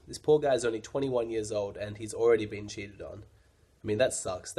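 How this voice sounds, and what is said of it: Slightly strange, cold-affected voice. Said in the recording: “apologize for my voice. I'm sure it sounds a little bit weird, but I've got a bit of a cold. ... that's why my voice is a little bit strange”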